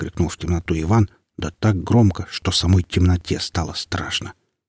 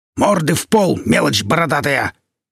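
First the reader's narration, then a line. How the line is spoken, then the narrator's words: Louder barking shout. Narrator (Russian): громче прежнего рявкнул богатырь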